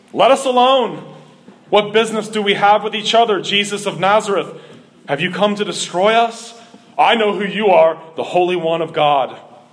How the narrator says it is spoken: a man possessed by the spirit of an unclean demon, and he cried out with a loud voice

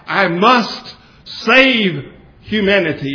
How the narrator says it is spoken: cried out

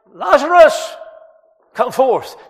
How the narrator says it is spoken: with that loud voice, He cried

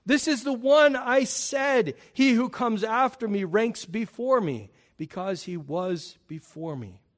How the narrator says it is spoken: John cried out

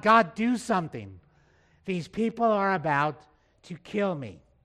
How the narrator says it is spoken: Moses cries out to God

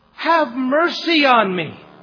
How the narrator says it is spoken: he cried

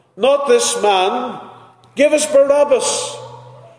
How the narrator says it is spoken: cried

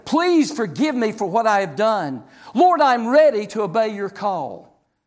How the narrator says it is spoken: he cried out to the Lord

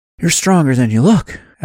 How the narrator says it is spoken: Adam said between gasps

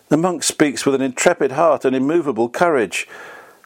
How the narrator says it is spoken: The emperor, changing his first impression, exclaimed

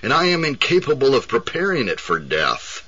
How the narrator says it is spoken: cried the dying man

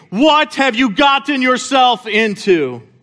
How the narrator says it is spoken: my brain began shouting at me

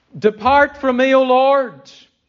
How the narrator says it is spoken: Peter cried out

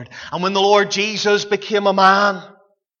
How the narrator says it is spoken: he cried

